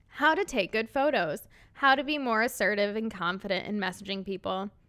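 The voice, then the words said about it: Midwestern American accent. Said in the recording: “my terrible Midwest accent”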